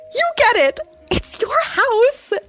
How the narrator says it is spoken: Ashley shrieked back

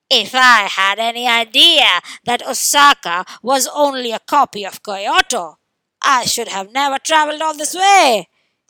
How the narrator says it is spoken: exclaimed the frog from Kyoto

